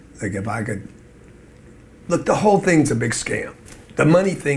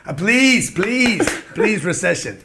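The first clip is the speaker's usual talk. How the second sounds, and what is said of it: Put-on accent while pleading. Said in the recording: “What's the accent? ... When I pray, I go into an accent.”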